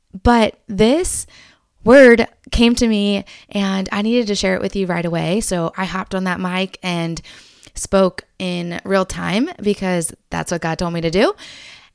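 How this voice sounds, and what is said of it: Strained voice with a cold. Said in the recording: “my voice is struggling and I have had a little cough and cold”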